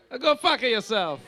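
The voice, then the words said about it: Put-on Italian accent. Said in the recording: “Italian accent ... That sounded Italian to me. ... Straight from Sicily.”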